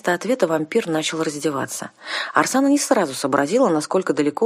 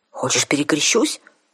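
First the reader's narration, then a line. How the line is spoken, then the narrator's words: Snapping retort, woman. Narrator (Russian): огрызнулась наемница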